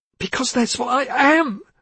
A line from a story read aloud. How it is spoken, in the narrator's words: she cried, with a sudden knowledge of a truth she'd lived with and avoided for years